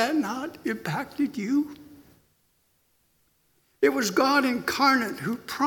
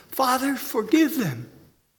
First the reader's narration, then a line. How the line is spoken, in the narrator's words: God incarnate who cried from the cross